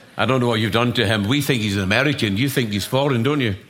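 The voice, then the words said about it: Scottish accent. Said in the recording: “My accent might be a challenge to some of you ... if Alan had stayed in Scotland, this is how he'd speak ... this is an accent. It's not an impediment.”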